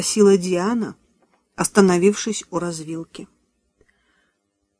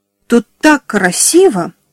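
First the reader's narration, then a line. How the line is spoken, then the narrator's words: Exclaimed. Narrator (Russian): воскликнула Эми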